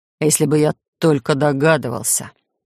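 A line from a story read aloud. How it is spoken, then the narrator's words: Growling interruption. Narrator (Russian): Рычаще перебил меня мистер Макыш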